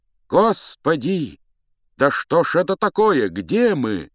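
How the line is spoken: Two panicked cries. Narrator (Russian): вскрикнули оба не своим голосом

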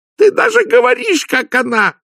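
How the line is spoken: Loud wailing. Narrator (Russian): завопила Лакримоза

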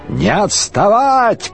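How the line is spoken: Shouting. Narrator (Russian): крикнул Шарлей

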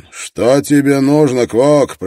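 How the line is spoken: Shouting. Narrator (Russian): прокричал он

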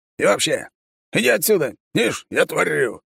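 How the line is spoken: Growled. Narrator (Russian): рыкнул он

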